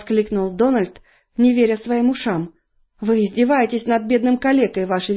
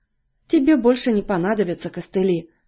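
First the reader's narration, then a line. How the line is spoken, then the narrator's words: Tender. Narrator (Russian): сказала она ласково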